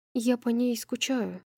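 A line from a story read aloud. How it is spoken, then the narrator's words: Quiet confession. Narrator (Russian): тихо призналась Брайс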